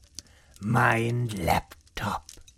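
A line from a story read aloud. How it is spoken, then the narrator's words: Whisper. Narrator (German): flüsterte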